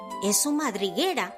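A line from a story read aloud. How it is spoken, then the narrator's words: Whispering. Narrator (Spanish): susurró Diego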